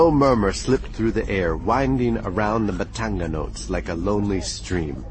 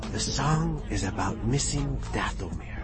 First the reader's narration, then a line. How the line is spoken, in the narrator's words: Maz said quietly